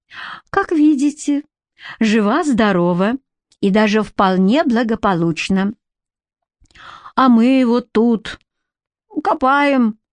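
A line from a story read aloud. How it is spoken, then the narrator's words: Cooing baby talk. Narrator (Russian): невпопад сказала баба Катя сюсюкающим голоском, словно обращалась не к своей ровеснице, а к малышу в коляске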